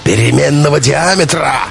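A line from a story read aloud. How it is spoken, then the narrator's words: Bellowing roar like wounded bull. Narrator (Russian): раненым буйволом взревел Белов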